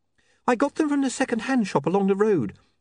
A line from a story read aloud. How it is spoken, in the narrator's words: said Saccharissa nervously